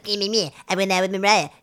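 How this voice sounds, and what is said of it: Whiny cartoonish imitation of another person. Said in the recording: “my Eminem impression ... It's better, actually. It sounded a lot more like him. ... Like a whiny little woman. ... You sounded like Cartman ... like a sweary Ed the Duck.”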